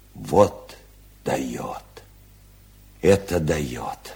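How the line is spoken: Whispered admiration. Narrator (Russian): шепотом восхищался Малевич

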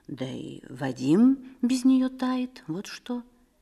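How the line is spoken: Quiet and meaningful. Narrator (Russian): Телегин тихо и значительно

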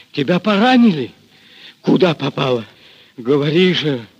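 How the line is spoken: Hoarse question. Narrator (Russian): хрипло спросил Григорий

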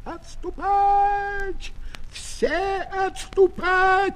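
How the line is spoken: Shouted from afar. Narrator (Russian): прокричал он издалека

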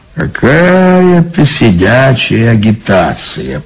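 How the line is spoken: Grumbled. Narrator (Russian): проворчал он

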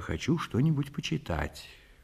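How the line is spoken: Quiet reply. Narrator (Russian): тихо отвечаю

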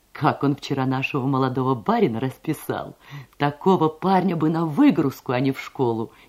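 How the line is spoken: Laughing speech. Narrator (Russian): смеясь говорила она

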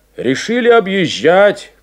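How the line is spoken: Shout. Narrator (Russian): крикнул

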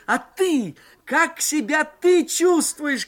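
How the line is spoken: Shouting into phone. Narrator (Russian): кричал я в горячую трубку

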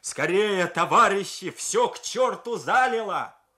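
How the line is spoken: Shouting. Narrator (Russian): кричал

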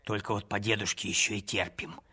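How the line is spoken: Whispered remark. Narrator (Russian): шепотом заметила старшая невестка

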